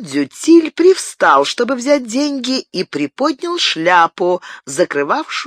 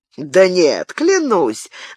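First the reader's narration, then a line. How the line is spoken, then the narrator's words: Insolent laugh. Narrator (Russian): нагло рассмеялся Арно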